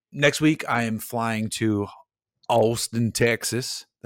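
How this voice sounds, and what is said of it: Poor put-on Texan accent. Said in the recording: “That's not a good accent. I'm usually better than that.”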